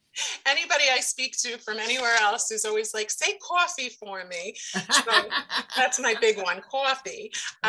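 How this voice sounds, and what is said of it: Brooklyn New York accent. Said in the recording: “I am from Brooklyn, New York, in case you haven't picked that up from the accent yet.”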